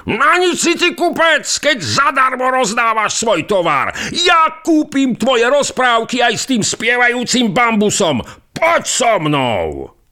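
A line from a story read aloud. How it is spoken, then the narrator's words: Shouting. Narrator (Slovak): kričí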